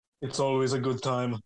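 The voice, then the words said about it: Toto Wolff impression, Austrian accent. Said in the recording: “say it again in an impression of Toto Wolff ... a joke about the Austrian accent.”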